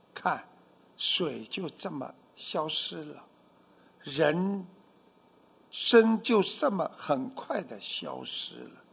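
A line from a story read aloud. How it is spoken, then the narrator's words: Low sigh. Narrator (Chinese): 圆通大师低声叹道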